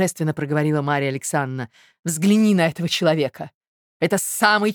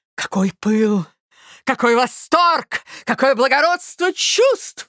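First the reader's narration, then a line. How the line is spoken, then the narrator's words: Exclaiming. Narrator (Russian): воскликнула Марья Александровна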